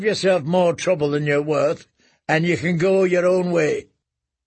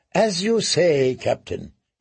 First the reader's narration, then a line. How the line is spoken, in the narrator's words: he murmured